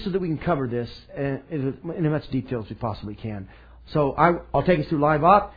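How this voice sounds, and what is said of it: Speaks noticeably faster. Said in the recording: “I'm going to speed up my voice”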